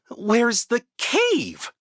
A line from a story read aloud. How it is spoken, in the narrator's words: cried Olaf